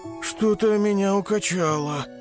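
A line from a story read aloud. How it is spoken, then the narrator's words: Moaning queasy tiger cub. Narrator (Russian): простонал тигренок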